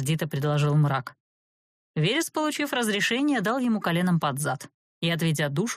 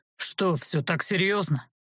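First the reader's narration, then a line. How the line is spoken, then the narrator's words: Gloomy sighing dragon. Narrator (Russian): Уныло вздохнул дракон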